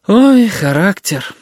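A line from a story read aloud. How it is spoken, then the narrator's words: Sighing. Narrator (Russian): вздохнула тетя Галя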